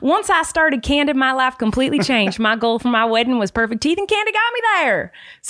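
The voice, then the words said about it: Put-on Tennessee twang. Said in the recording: “He's from Tennessee. You don't want to do a little... A little twang? ... my horrible impression of you ... I think that was spot on”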